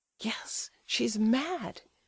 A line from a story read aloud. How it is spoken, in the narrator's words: he whispered, growing pale